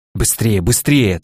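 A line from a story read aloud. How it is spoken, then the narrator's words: Hurried muttering. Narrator (Russian): торопливо приговаривал пастор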